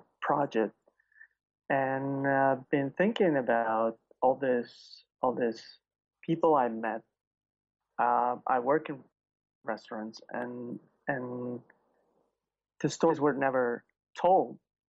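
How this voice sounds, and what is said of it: Slight foreign accent. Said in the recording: “you sound like there's a little bit of an accent, but not too much.”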